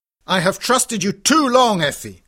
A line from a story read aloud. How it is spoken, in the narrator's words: he cried